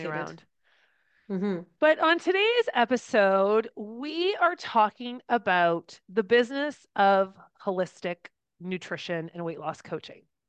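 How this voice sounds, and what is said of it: Croaky voice from a cold. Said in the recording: “I've been battling a cold, so I'm extremely croaky ... My voice will cut out.”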